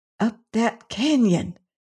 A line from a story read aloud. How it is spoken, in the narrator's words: exclaimed Venters